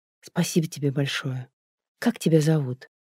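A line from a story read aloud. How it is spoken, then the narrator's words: Quiet grateful speech. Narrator (Russian): в порыве благодарности негромко сказала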